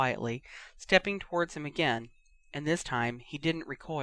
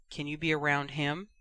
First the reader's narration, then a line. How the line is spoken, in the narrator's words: he finally asked